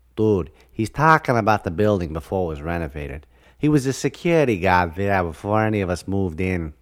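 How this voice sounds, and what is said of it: Thick Boston accent. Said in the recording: “a thick Boston accent”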